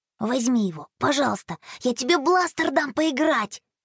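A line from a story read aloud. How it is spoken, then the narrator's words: Barely audible whisper. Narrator (Russian): Еле слышно прошептал Рома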